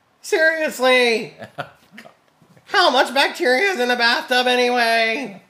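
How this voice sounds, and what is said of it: Jerry Seinfeld impression. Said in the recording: “do my like Seinfeld impression.”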